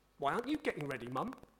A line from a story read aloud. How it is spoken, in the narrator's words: I asked